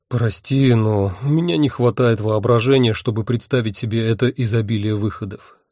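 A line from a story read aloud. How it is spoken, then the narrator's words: Sigh. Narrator (Russian): вздохнул я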